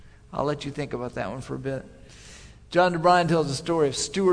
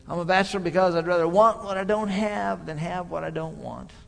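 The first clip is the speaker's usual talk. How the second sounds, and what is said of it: Crusty New England accent, John DeBrine. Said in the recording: “he'll say in his crusty New England accent,”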